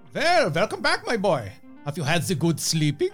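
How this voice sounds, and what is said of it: German accent. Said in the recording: “speaking with a German accent”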